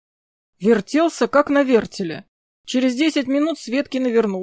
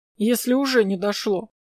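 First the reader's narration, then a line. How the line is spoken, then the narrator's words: Grumble. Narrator (Russian): проворчал я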